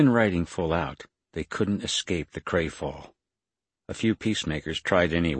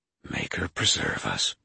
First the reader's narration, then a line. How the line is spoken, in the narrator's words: breathed Elendine